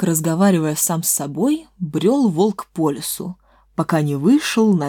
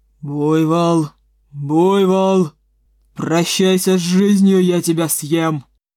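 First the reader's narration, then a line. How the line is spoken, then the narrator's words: Wolf's growl. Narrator (Russian): прорычал волк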